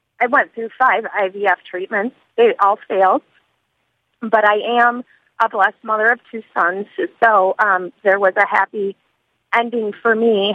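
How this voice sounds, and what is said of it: Emotional, choked-up voice. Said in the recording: “I'm sorry, I'm a little emotional.”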